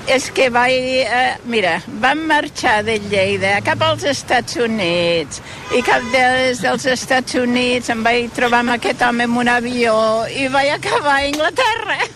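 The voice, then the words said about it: English accent speaking Catalan. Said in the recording (Catalan): “té accent d'inglès”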